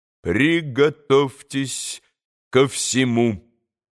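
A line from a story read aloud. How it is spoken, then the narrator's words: Clipped, stressing each syllable. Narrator (Russian): отчеканил, ударяя по каждому слогу доктор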